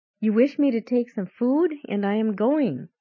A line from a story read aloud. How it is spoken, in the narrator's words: remarked in a clear and distinct voice